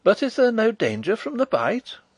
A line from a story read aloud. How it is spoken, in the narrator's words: cried Flavia anxiously